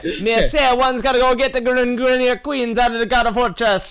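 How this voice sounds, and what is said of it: Put-on Caribbean accent. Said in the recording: “you're not all of a sudden from the Caribbean and calling it Dakata.”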